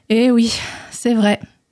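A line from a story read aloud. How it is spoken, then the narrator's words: Hunter sighing. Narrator (French): soupira le chasseur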